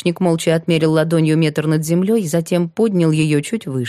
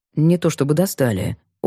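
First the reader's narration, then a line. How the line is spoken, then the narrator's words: Evasive muttering. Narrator (Russian): уклончиво пробормотал Сергей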